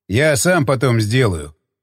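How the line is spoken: Snorting. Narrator (Russian): хмыкнул он

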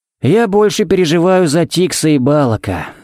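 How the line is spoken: Sighed. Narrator (Russian): вздохнул Харри

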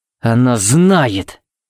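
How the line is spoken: Growled. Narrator (Russian): буквально прорычал Тикс

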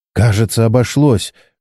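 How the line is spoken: Relieved exhale. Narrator (Russian): выдохнула Чен

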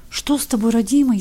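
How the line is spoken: Frightened babbling old woman. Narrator (Russian): испуганно лепетала старуха

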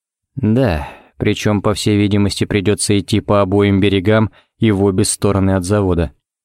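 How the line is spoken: Even gloomier. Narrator (Russian): Ричмонд еще более мрачно

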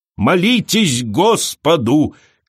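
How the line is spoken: Shouting. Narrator (Russian): кричала она

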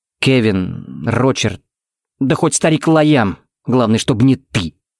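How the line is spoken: Through gritted teeth. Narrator (Russian): процедил Тикс

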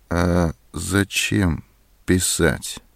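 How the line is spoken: Cold. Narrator (Russian): холодно сказала Зоська

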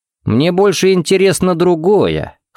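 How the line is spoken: Snort. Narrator (Russian): хмыкнул Джаред

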